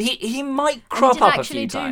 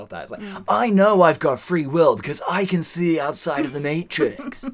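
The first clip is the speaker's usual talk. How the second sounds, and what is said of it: Subtle imitation of another person's voice. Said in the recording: “my Keanu Reeves impression ... He did actually do one. Whoa, as well ... It was quite good, actually, because it was quite subtle ... It was a very subtle one”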